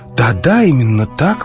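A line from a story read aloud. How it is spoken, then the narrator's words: Exclamation. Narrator (Russian): воскликнул Мелихрон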